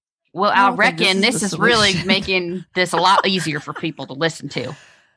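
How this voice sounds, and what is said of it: Thick put-on folksy accent. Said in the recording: “I could have a real thick accent ... Now I just feel like I sound like Ted Lasso.”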